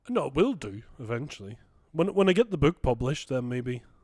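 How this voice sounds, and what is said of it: Odd, poorly done mixed English accent. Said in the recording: “Where the fuck is that accent from that you just come out with there now? ... It was kind of like a mix of English and not very good. ... your accent was hideous then”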